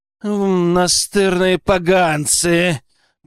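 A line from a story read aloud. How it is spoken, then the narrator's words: Angry growl. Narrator (Russian): прорычал Крупский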